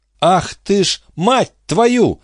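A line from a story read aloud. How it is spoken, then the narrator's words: Disgusted scream. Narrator (Russian): закричала Рут и, передернувшись от внезапного отвращения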